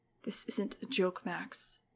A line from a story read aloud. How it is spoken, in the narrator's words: he said coldly